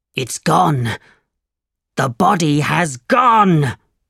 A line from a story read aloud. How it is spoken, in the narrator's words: cried